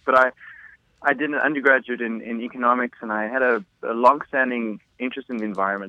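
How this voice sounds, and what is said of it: Southern African English accent. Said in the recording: “you can probably tell from my accent, in Southern Africa”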